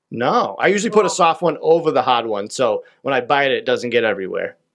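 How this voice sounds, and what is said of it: Heavy Boston accent. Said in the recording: “in Boston with your accent. ... It's very heavy. ... It's a strong accent.”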